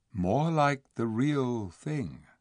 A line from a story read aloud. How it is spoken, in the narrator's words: said softly